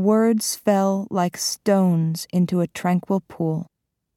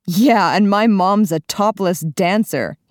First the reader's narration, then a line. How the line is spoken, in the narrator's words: jeered